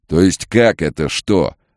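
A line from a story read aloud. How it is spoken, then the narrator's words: Barked. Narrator (Russian): рявкнул Билл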